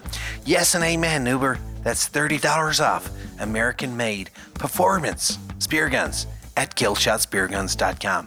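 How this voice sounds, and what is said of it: Poorly done put-on accent. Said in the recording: “I'm really sorry for this terrible accent.”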